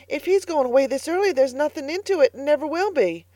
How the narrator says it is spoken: gasped Carlotta

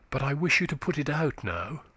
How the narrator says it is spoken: she said hastily

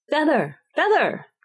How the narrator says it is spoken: the sheep cried again

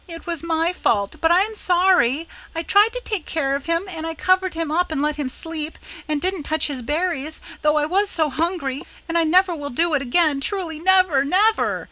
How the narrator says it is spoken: sobbed Nan, quite lost in a sea of penitence and thankfulness

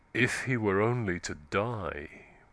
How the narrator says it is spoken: Wild Eve murmured

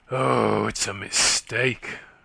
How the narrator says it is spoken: she groaned

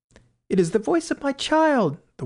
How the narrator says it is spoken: the White Queen cried out

